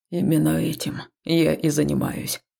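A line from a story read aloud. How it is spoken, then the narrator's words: Grumbled. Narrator (Russian): проворчал муж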